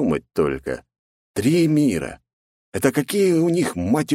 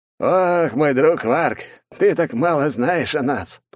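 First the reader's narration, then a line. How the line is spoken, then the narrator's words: Laughing. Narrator (Russian): продолжал он смеяться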